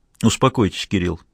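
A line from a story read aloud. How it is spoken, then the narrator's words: Gentle. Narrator (Russian): мягко сказал Асади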